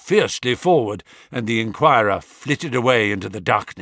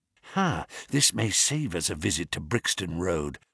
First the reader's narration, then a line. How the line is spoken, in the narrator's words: whispered Holmes